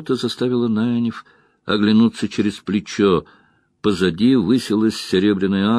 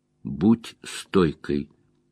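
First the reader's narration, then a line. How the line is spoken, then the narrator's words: Soft cry. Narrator (Russian): Марин тихо вскрикнула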